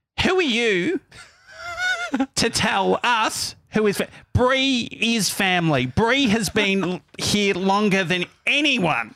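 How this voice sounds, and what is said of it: Imitates another person's voice. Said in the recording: “do an impersonation of how it would have just how it would have gone down”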